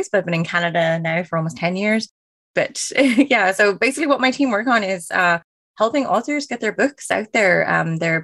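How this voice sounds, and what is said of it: Irish accent, a little mixed. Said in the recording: “I am originally from Ireland, which is why the accent is a little bit all over the place”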